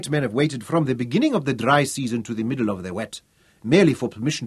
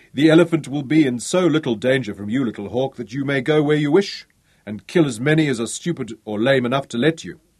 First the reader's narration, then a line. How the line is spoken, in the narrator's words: he laughed again and said